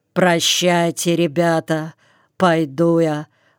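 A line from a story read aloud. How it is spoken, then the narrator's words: Weary. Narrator (Russian): Устало проговорил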